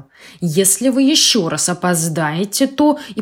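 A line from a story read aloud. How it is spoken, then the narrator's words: Stern stationmaster. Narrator (Russian): начальник станции ему строго сказал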